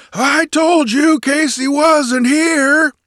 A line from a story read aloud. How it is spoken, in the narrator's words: he roared cheerfully